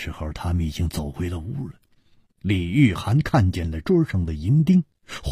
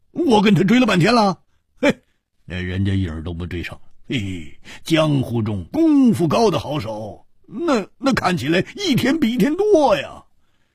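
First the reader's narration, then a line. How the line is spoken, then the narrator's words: Wry rueful laugh. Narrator (Chinese): 胡铁花苦笑着说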